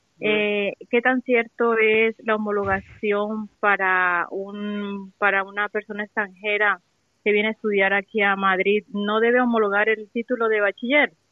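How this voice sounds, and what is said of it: Colombian Spanish accent. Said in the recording (Spanish): “por tu acento infiero que eres de Colombia”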